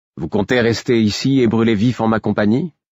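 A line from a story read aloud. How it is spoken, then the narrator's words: Casual. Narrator (French): demandai-je d'un ton dégagé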